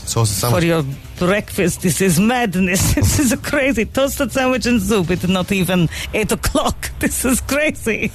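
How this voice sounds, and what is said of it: Put-on French accent. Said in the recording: “What is your accent? It's French. ... So French, it's Polish.”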